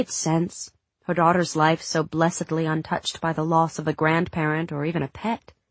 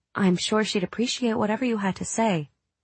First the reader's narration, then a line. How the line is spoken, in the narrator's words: Katie said